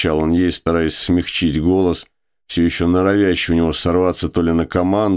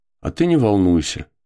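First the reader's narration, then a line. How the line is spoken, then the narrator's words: Calm, commanding. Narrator (Russian): сказала она спокойно и даже, пожалуй, властно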